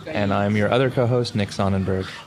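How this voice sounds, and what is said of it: Smooth late-night radio DJ voice. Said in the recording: “that was a very butterscotchy, good radio voice ... That was like late night spinning the stacks of wax kind of voice”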